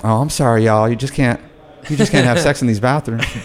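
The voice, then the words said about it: Put-on Texas drawl. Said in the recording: “this Texas drawl that she could kind of turn the volume up or down on ... Texan listening to this, forgive my my impersonation ... spot on.”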